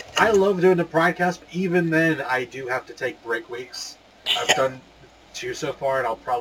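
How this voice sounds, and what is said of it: Usual voice. Nothing is said of it.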